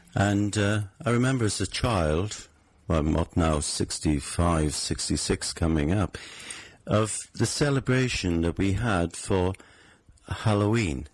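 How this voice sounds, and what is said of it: Welsh accent. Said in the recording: “My background is that I'm Welsh. You can possibly tell that from my voice.”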